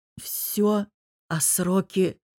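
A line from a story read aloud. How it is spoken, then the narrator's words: Hoarse, strained croak. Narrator (Russian): хриплю, судорожно сглотнув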